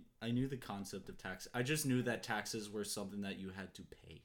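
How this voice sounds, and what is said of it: Usual voice. Nothing is said of it.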